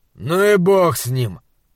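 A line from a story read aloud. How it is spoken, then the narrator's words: Grumbling. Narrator (Russian): проворчал монстролог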